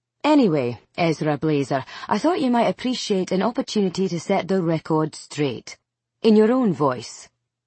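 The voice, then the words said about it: Scottish accent. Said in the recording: “in an English accent. ... It's a Scottish accent.”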